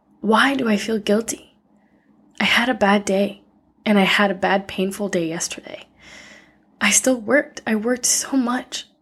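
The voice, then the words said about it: Tearful, emotional voice. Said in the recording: “You can probably hear it in my voice right now that I'm very emotional and my eyes are full of tears.”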